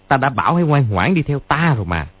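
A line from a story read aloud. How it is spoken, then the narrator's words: Sneering. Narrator (Vietnamese): cười khẩy nói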